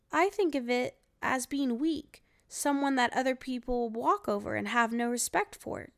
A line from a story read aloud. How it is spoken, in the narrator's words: David replied